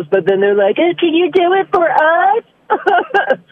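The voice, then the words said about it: Impersonates teenagers' voices. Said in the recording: “Your impersonations are on point, dude.”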